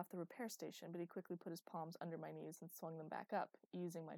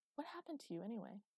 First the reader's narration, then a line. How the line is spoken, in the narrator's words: I sighed